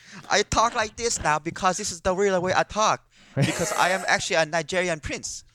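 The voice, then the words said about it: Put-on exaggerated foreign accent. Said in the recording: “Is that your Nigerian accent? ... that was still my Asian accent ... I thought you were trying to be Nigerian there”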